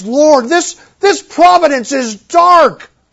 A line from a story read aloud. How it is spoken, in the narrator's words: he pleads